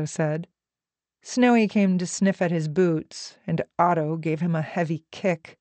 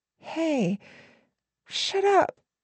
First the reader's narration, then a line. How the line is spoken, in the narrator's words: Kelly said, meekly